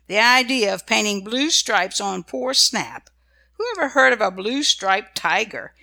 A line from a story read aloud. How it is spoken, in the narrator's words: she tried hard not to laugh